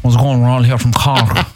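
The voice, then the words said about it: Put-on Cork accent. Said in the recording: “you'll start speaking with a Cork accent”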